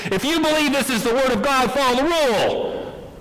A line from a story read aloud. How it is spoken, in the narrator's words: the leader of the synagogue as he shouted to the congregation